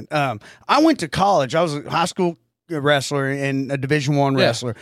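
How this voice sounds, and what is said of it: Mixed Southern US Carolina accent. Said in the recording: “you have the accent a person that's not from the South thinks that we have ... Here's why I got such an accent ... It's like a mixed accent there ... it's that mixture of that Carolina”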